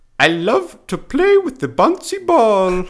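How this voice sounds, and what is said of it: Put-on Finnish accent. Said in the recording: “I'm gonna say it in the Finnish accent too.”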